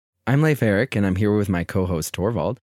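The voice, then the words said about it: Sick, rough-sounding voice. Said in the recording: “I'm a little sick, so I apologize for my voice”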